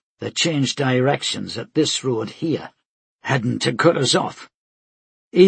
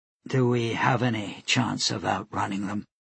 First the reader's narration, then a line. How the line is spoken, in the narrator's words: she asked quietly